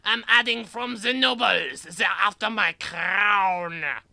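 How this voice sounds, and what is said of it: French accent. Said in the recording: “Why is he the only one that speaks with a French accent?”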